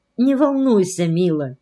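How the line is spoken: Tender. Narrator (Russian): повторила она ласково

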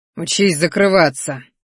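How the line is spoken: Angry, through clenched teeth. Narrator (Russian): злобно процедил он

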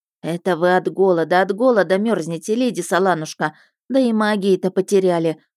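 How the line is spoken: Sighing, pitying. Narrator (Russian): вздохнула Вишана и с жалостью

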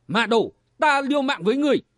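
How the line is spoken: Furious shout through teeth. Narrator (Vietnamese): Kim Cương Thần Tiền Nhụy nghiến răng quát

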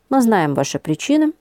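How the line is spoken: Calm agreement. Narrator (Russian): спокойно согласился голос

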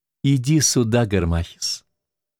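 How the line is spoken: Gentle woman's voice. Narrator (Russian): продолжала Клеопатра своим нежным голосом

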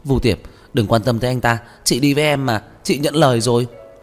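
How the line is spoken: Angry pleading shout. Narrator (Vietnamese): Lâm Hữu Nam tức tối hét lên, van xin

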